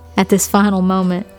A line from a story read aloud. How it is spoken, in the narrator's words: she chuckled at her own lameness